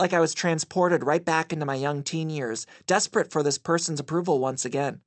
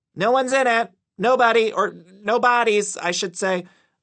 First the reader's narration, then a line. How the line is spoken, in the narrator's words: told her loudly, overcompensating